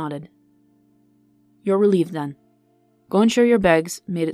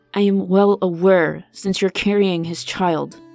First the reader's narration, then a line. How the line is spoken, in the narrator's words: he spat vehemently